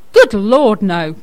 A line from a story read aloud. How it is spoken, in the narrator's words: cried Captain Gilby